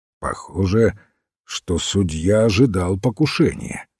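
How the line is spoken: Plain. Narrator (Russian): сказал сыщик

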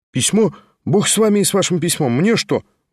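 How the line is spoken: Exclamation. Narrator (Russian): воскликнул гость

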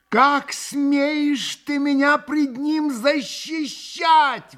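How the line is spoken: Screaming. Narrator (Russian): вопила Грушенька

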